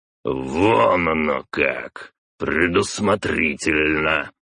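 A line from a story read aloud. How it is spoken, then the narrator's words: Fierce growl. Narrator (Russian): свирепо прорычал отец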